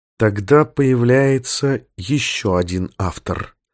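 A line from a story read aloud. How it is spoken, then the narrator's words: Very quiet, through gritted teeth. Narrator (Russian): процедил Корса сквозь зубы и очень тихо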